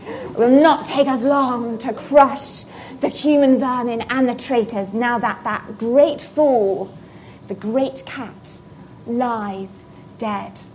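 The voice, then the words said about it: Villainous witch character voice. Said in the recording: “the White Witch ... she says this ... I need a bit of more accent”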